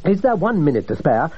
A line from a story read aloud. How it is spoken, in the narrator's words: I asked eagerly